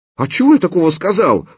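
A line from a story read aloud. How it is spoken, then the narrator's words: Howling. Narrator (Russian): взвыл он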